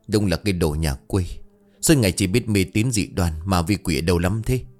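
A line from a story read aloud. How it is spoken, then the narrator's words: Old man muttering. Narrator (Vietnamese): Miệng của ông lẩm bẩm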